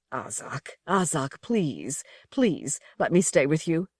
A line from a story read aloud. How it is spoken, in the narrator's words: The stranger saying in a strangled voice